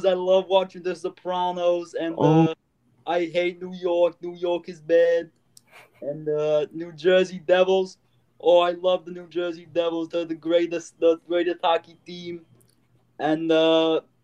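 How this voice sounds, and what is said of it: Put-on New Jersey accent. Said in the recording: “That was my New Jersey accent. ... I know all New Jersey people don't speak like that”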